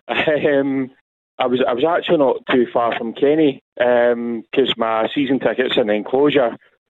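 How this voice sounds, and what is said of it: Hoarse voice. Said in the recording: “my voice, I don't know if you can hear me, I'm a bit hoarse”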